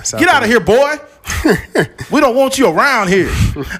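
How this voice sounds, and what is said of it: Put-on Southern accent. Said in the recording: “the racist voice always like a southern a southern accent”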